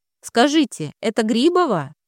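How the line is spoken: Shout. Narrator (Russian): прокричала Маша

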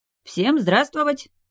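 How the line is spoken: Snorting hum. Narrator (Russian): хмыкнул

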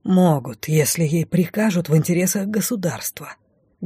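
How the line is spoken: Hissed. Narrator (Russian): прошипел Франц

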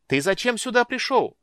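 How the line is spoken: Yelling into ear. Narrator (Russian): заорала Мэри в ухо мага

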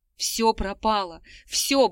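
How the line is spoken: Frightened mumbling. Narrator (Russian): бормотал побелевшими губами

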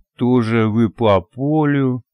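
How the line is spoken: Groaning, indistinct mumble. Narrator (Russian): Отец вновь застонал и произнес неразборчиво

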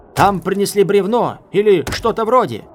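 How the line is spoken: Shout. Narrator (Russian): крикнули ему

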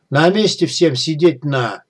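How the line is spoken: Nasal voice from behind. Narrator (Russian): раздался позади гнусавый голос

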